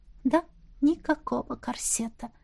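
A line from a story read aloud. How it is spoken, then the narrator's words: Whispered confirmation. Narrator (Russian): шепотом подтвердила я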